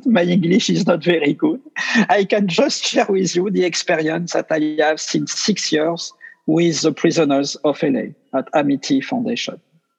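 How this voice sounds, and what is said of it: French accent. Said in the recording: “I speak with my French accent.”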